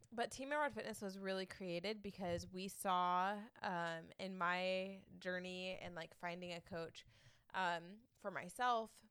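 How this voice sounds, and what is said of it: Congested voice from a cold. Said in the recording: “I have a little bit of a cold, so you guys are definitely going to hear that.”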